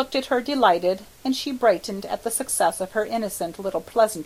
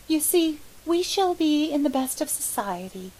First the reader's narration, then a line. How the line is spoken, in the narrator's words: she ventured timidly